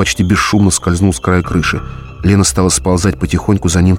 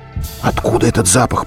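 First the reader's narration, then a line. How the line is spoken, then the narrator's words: Whisper. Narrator (Russian): прошептала Лена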